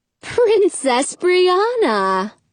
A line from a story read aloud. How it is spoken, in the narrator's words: says warmly